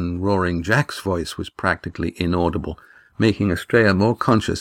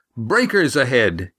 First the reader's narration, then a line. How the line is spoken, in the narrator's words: he yelled, suddenly sure of what he saw